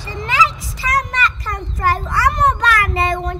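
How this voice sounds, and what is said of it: Thick Southern US accent. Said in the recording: “his thick accent ... He's from the South”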